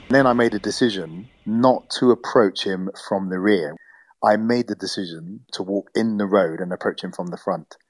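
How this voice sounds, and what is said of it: British English accent. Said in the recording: “he'll know I'm British ... I needed to hear my English accent”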